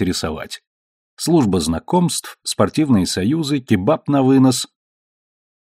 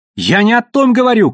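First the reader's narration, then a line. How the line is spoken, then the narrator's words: Shouting. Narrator (Russian): кричал племянник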